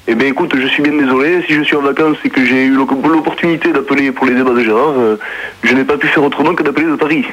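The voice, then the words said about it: Southern French accent. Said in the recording (French): “tu prends ton accent de Paris, tu prends pas ton accent marseillais ... tu as l'accent marseillais ... j'ai l'accent toulousain”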